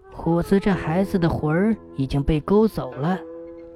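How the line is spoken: Low, grave. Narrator (Chinese): 老太太沉声说道

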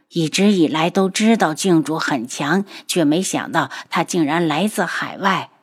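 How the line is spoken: Sighing. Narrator (Chinese): 绵姨叹息着道

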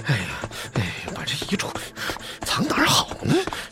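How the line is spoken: Muttering while running. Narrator (Chinese): 他边跑边嘟囔

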